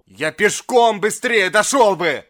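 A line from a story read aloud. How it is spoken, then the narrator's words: Exasperated shout. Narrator (Russian): В сердцах крикнул доктор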